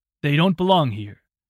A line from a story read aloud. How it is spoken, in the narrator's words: his father said in a cold, dry tone